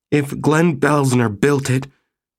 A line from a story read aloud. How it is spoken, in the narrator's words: Maggie said fiercely